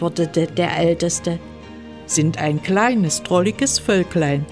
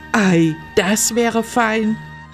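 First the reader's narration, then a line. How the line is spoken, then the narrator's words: A brother calling out. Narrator (German): rief ein der Brüder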